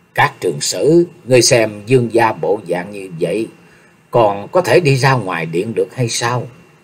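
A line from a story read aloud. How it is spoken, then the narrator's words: Sighing, worried. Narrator (Vietnamese): Từ Phi thở dài một hơi, phát sầu rồi nói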